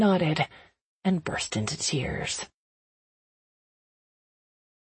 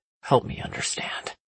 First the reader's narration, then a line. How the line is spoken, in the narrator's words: he said quietly